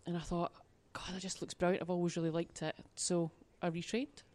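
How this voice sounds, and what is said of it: Soft, posh Glaswegian accent. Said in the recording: “I sound like a posh Glaswegian now because I've been down here for a while.”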